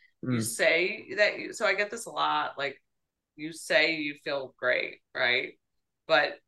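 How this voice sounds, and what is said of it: Usual voice. Nothing is said of it.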